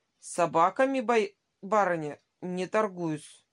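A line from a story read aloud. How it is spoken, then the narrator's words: Cold, dignified. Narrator (Russian): сказал он холодно и с достоинством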